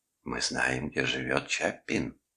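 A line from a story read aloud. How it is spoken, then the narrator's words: Whisper. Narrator (Russian): шептала луна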